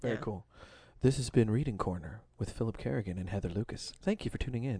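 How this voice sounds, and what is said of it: Public radio host voice. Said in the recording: “our best NPR impression”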